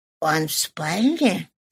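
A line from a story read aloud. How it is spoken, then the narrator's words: Barely audible old woman. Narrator (Russian): чуть слышно спросила старая приятельница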